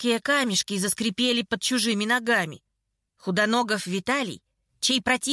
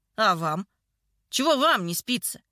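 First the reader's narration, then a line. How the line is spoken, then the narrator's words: Hoarse, angry, strained voice. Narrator (Russian): Голос звучал сипло, зло, как если бы Худоногов с трудом раскрывал рот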